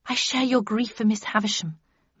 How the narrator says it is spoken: murmured Beatrice

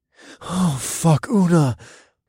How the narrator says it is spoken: I gasped out with the last clear thought I had before stars bloomed in my vision

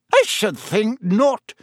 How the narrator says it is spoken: said Professor McGonagall sharply

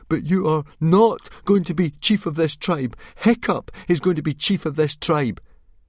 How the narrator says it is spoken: went very white in the face, but he still managed to gasp out

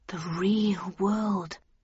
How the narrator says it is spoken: I murmured out loud

